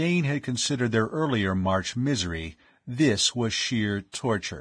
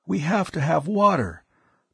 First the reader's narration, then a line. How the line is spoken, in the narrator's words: Tao's voice was a harsh croak